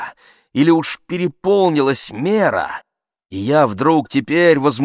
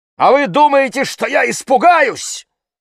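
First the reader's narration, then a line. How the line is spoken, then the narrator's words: Bold, breathless agitated cry. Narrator (Russian): вскрикнул я дерзко и гордо, не взвидев света от своей горячки, задыхаясь от волнения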